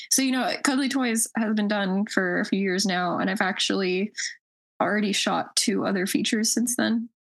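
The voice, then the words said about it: Hoarse voice. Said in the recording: “I think that's why I'm all hoarse right now.”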